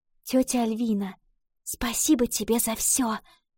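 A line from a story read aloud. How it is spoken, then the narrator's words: Girl whispering. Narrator (Russian): прошептала девочка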